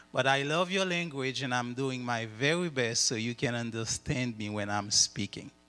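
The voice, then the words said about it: French accent speaking English. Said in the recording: “my accent. And you know, once your tongue has been trained in French, so it is a little bit difficult to get it into another language”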